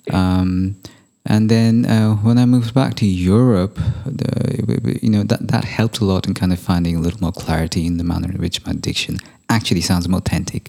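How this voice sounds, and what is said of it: Hybrid neutral accent, British-leaning. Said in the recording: “my accent's like a bit of a hybrid, like neutralish ... my base accent is more British than it is American ... I can't for the life of me speak with an American accent”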